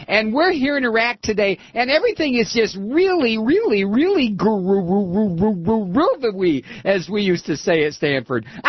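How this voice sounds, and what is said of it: Imitates another person's voice. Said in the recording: “I'm Condoleezza Rice”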